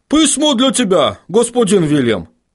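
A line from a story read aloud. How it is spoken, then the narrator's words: Shout. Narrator (Russian): крикнул один из гномов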